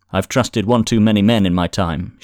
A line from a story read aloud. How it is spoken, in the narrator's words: she replied, sharply, her manner suddenly guarded